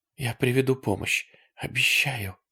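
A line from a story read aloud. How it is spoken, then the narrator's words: Whisper. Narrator (Russian): сказала она шепотом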